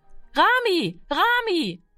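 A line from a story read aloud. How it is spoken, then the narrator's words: Call. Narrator (German): rief sie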